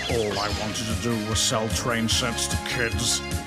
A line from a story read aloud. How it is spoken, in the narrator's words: muttered Alan